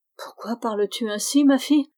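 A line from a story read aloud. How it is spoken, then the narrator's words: Exclaiming. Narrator (French): s'écria Berthe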